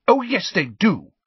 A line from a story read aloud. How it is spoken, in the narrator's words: said Luna angrily